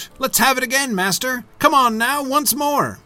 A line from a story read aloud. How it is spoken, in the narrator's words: They called for more ale and began to shout